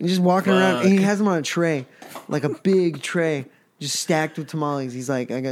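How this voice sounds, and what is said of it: Usual voice. Nothing is said of it.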